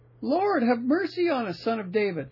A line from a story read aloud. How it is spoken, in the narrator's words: they cried all the louder, saying